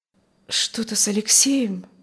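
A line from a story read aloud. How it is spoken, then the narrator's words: Hoarse, strange voice. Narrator (Russian): спросила она хриплым чужим голосом, совсем не похожим на ее собственный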